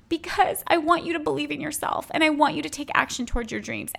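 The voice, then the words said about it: Emotional, moved voice. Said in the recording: “getting emotional”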